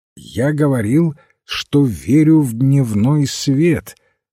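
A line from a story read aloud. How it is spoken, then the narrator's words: Loud and clear. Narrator (Russian): ответил священник громко и отчетливо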